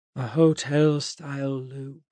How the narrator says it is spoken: Enoch said sleepily

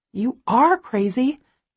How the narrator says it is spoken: my subconscious snaps

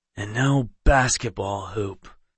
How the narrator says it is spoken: Knox said with a sigh

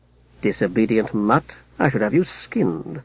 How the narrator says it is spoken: muttered Haplo

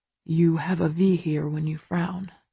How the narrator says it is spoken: he murmurs

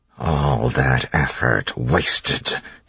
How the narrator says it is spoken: he hissed

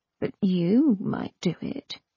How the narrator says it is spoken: she said softly

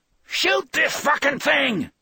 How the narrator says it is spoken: Steve yelled

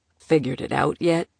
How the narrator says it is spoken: Sato chuckled darkly

